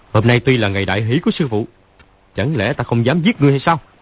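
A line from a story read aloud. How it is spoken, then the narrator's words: Shout. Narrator (Vietnamese): Lão quát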